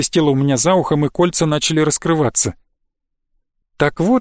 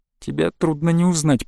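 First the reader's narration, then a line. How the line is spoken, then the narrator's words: Strained creaky voice. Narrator (Russian): проскрипел я, почувствовав, что змеиные кольца стягиваются туже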